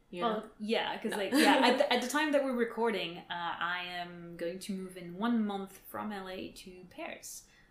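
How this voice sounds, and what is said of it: French accent. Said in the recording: “listen to my accent will understand that that's where I'm from as well”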